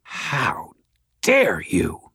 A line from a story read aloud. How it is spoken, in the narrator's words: Madeline snarled